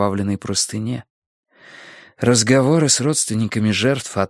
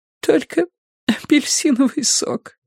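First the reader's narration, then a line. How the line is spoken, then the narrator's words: Sobbing. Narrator (Russian): всхлипнула она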